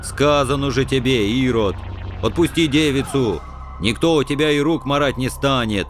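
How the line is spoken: Angry booming rumble. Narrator (Russian): прогудел злобыня Никитич

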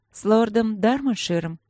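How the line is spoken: Tired woman clarifying. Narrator (Russian): устало уточнила она

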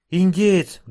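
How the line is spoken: Sudden frightened cry. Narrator (Russian): вдруг испуганно вскрикнула она

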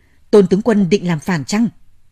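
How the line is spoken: Stern voice. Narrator (Vietnamese): U Hoàng Phúc nghiêm giọng nói

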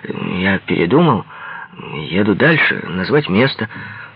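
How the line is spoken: Calm. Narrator (Russian): спокойно сказать

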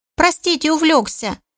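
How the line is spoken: Squeaky voice, apologetic. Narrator (Russian): Писклявым голосом постарался оправдаться свинорыл

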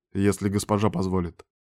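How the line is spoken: Calm. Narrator (Russian): спокойно ответил Дориан

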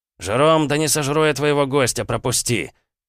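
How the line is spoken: Mage's angry snap. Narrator (Russian): огрызнулся маг, зло

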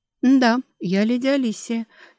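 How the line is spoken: Slightly trembling voice. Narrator (Russian): чуть дрожащим голосом сказала она

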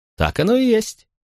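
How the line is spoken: Cheerful laugh. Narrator (Russian): весело рассмеялся Максимий

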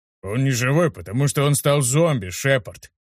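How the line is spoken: Deep bass voice. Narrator (Russian): пробасил Ханк

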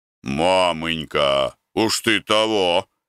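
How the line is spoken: Weary remark. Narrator (Russian): замечал иногда Гордей Евстратыч, когда ему надоедало ворчание старухи

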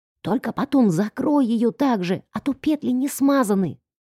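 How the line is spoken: Whispered instruction. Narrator (Russian): Шепотом инструктирую я Артема

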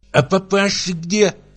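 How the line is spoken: Lisping question. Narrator (Russian): спросила она шепелявя

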